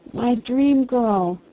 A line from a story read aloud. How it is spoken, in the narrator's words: he cried hoarsely